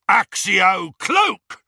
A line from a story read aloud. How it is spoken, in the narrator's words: roared one of the Death Eaters